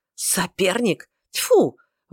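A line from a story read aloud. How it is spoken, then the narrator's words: Angry laughing exclamation. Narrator (Russian): воскликнул Эрингтон с сердитым смешком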